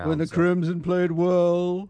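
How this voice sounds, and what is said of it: Put-on posh accent. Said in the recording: “a rather posh accent you're taking on”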